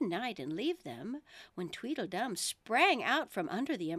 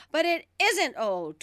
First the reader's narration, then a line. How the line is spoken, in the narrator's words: Tweedledum cried, in a greater fury than ever